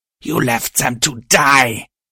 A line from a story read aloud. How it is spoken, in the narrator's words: the thing growled